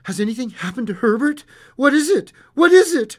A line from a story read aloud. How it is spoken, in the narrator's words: Breathlessly